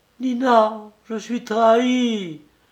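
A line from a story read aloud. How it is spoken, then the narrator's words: Sobbing exclamation. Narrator (French): s'écria avec des sanglots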